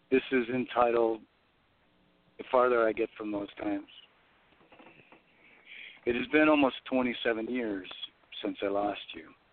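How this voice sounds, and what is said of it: Slightly hoarse voice. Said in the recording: “My voice it sounds to me like it's a little hoarse.”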